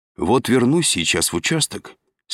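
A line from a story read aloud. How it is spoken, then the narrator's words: Calm statement. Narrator (Russian): спокойно сообщил он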